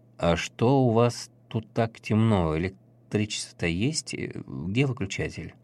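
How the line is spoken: Hesitant deep bass. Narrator (Russian): Отец-наместник неуверенно крякнув, пробасил

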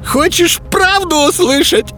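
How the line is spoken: Spluttering, yelling villain. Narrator (Russian): Брызжа слюной, заорал злыдень

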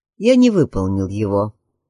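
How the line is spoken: Sad. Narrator (Russian): грустно ответил Уильям

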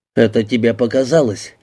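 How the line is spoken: Snort. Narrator (Russian): хмыкнул донор

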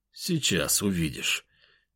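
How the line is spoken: Quiet, indifferent. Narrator (Russian): тихо проговорил я, совершенно не заботясь о том, услышит ли он мой ответ или нет

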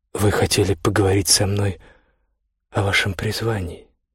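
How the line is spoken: Gentle prompting. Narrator (Russian): мягко подсказала она

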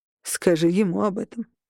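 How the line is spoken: Snorting. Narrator (Russian): хмыкнул Берн

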